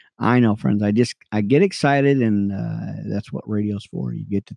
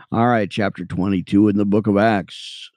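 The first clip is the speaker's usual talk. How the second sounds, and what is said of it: Announcer-style radio voice. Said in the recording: “that's my radio voice”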